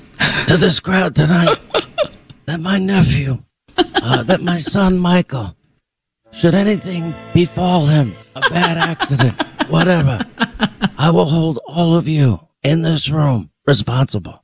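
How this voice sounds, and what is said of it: Godfather character impression, strained throaty voice. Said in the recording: “my favorite impersonation that you do is the Godfather ... I know it hurts your throat”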